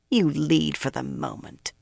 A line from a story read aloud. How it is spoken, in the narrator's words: she sneered